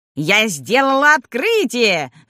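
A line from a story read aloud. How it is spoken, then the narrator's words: Shrill old woman's shout. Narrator (Russian): закричала бабка визгливым голосом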